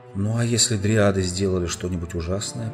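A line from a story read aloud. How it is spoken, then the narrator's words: Muttered. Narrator (Russian): пробормотал Алмаз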